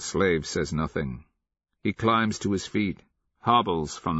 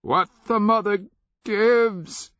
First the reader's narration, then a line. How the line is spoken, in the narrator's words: he cries out to the king